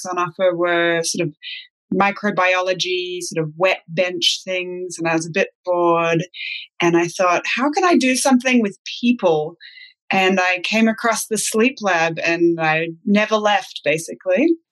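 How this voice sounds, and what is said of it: Mixed international accent. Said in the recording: “I can detect a really mixed accent there ... my accent has never quite settled into one thing”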